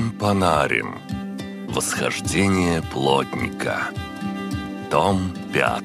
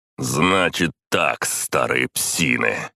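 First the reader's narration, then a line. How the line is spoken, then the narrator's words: Growling. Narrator (Russian): прорычал я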